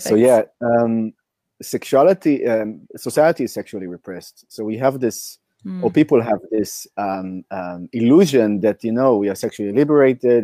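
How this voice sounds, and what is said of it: Hoarse voice. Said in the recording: “my voice is a bit hoarse because I've shouted like crazy yesterday in an ecstatic dance. So yeah, that's my sexy voice.”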